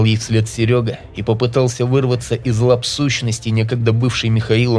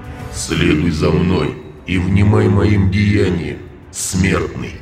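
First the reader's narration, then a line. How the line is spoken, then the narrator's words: Deep booming reply. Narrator (Russian): пробасил в ответ тот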